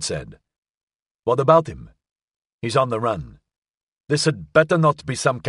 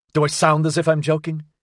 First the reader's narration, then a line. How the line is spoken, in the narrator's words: He said sharply